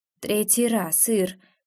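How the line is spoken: Tired voice. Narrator (Russian): устало произносит

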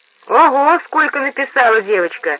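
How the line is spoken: Laughing. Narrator (Russian): засмеялся дядя Пост

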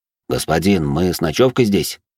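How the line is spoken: Plain. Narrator (Russian): спросил Фредерик

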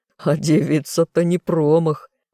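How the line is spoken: Loud laughter. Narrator (Russian): продолжал хохотать Амдир

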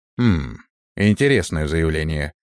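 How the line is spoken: Skeptical snort. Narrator (Russian): хмыкнул я

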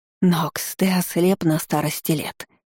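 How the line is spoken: Old woman hissing. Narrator (Russian): зашипела пожилая женщина

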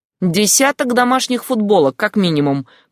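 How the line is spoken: Grumbling. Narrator (Russian): проворчал Яго

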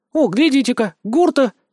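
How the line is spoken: Sudden exclamation, woman. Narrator (Russian): Вдруг воскликнула одна из целительниц

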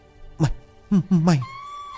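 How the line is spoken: Trembling voice. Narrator (Vietnamese): Giọng của Lực run rẩy

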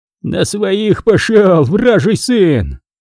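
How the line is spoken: Vicious hoarse wheeze. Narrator (Russian): он злобно захрипел

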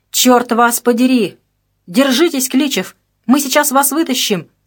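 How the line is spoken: Shout. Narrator (Russian): закричал Энский

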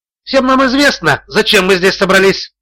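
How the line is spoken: Shouted. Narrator (Russian): выкрикнул Боркин

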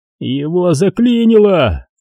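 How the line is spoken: Madman yelling. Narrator (Russian): заорал непонятно кому безумец

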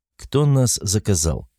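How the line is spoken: Plain. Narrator (Russian): спросил он

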